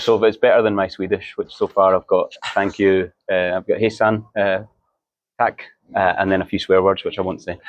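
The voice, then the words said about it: Scottish accent, easy to understand. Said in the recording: “I really love your accent ... But it's still possible to understand it ... Some Scottish guys are... impossible to understand, but you're okay.”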